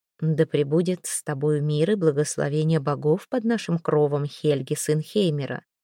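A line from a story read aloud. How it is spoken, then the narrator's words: Soft, welcoming. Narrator (Russian): мягко и приветливо сказала она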